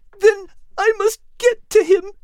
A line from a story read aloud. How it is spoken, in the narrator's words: Kate said tearfully